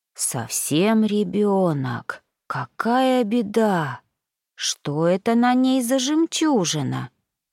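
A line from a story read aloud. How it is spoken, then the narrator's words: Old whale whispering. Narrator (Russian): прошептал старый кит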